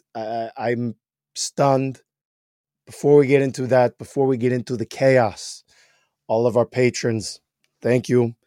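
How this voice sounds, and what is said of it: Hoarse, strained, nearly lost voice. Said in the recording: “As you can tell, I've lost my voice from it.”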